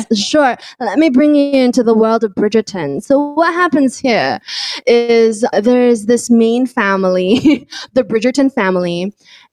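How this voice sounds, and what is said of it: Bad put-on British accent, drunk-sounding. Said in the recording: “I'm donning the pseudo-British accent. This doesn't sound British at all. I don't know what that is. It sounds like a drunk accent.”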